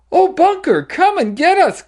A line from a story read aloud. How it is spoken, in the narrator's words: cried Sue